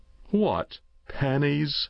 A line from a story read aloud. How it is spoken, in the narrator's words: laughed the uncle